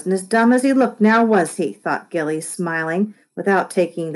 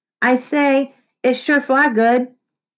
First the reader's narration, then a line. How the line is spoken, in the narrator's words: with the effort of raising his voice to an audible level